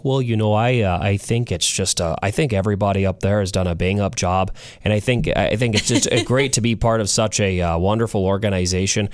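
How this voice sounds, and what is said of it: Put-on Minnesota/Canadian accent. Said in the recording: “accent. ... Or the northern half of America, the Minnesota into the Canadian.”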